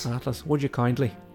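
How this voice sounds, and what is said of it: Put-on Irish accent. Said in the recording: “this guy with an Irish accent ... It's such a good accent. Such a good impression ... we always used to do the accent”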